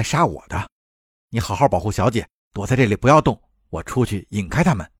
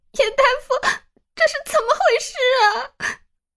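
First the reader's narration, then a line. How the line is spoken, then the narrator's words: Tearful voice. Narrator (Chinese): 明禅带着哭腔道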